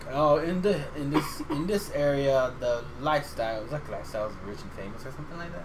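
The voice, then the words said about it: Proper British accent. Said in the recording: “that real British proper accent”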